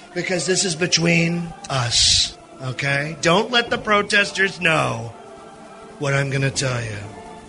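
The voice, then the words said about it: Donald Trump impression. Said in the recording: “this is a Trump impersonator, by the way. ... This is a Trump impersonator at one of these rallies.”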